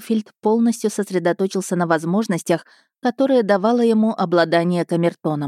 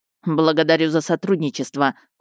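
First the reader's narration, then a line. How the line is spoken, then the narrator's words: Cold. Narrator (Russian): холодно сказал Ищейка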